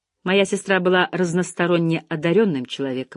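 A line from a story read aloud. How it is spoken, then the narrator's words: Dry reply. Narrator (Russian): ответила сухо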